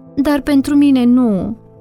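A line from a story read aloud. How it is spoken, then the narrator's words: Sorrowful, tearful. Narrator (Romanian): zicea Nina, ridicându-și ochii roșii de plâns și clătinând cu durere din cap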